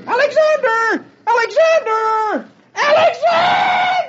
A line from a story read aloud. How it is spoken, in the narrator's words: screaming at the top of his voice